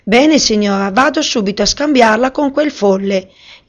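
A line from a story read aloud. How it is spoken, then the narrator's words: Exclaimed. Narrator (Italian): esclamò Anur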